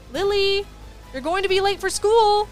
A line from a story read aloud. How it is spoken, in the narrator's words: mother yelled from downstairs